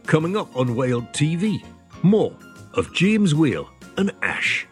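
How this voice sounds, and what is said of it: Put-on Geordie accent. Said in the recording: “I could do it in a Geordie accent ... Very good.”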